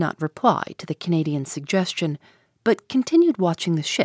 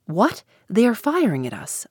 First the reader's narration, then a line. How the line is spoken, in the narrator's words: I exclaimed